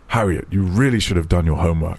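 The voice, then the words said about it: Annoyed stern dad voice. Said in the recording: “do me your best dad voice? Like, to pretend you're annoyed with me and I'm your daughter.”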